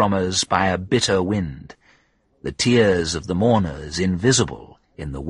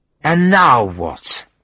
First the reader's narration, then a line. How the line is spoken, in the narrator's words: she said in a slurred voice